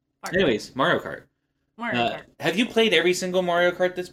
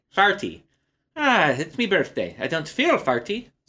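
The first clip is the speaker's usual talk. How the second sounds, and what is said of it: Put-on Irish accent. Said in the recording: “that's my Irish impression.”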